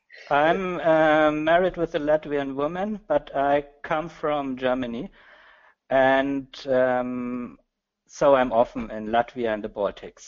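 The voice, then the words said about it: German accent. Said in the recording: “you have a good German accent”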